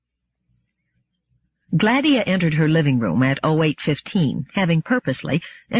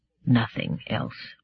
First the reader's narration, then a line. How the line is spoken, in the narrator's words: And Daniil said softly and dispiritedly